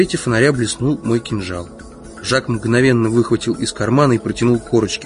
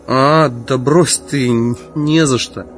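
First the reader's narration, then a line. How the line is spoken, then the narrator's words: Mumbled. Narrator (Russian): промямлил он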